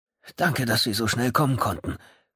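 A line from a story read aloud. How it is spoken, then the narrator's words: Panting. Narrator (German): keuchte Kemba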